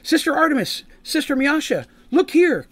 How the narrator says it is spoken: Kelvin exclaimed

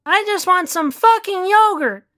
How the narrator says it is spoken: squealed Natalie

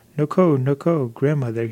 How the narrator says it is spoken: he cried

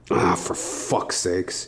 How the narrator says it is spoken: I muttered to myself

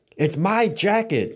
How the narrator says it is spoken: Tim yelled in response

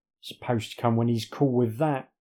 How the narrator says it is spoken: snarls

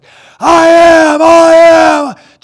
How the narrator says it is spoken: screaming out

